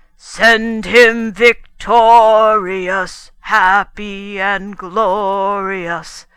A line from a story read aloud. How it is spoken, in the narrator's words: they bellowed